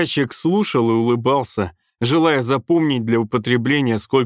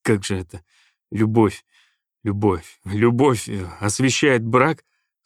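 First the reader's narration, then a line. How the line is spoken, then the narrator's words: Stammering. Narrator (Russian): сказал он, запинаясь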